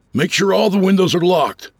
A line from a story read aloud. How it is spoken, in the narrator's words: I yelled from the kitchen